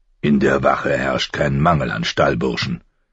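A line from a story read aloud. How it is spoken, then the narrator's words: Growling. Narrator (German): knurrte Lord Mormont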